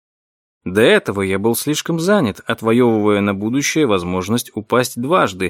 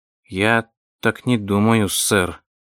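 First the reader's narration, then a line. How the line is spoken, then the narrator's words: Uncertain. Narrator (Russian): неуверенно произнес Вилли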